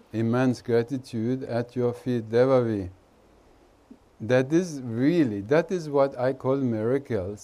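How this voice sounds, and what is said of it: Indian-accented English. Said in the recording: “your Indian accent”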